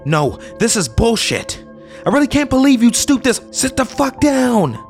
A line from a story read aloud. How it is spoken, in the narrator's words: she yells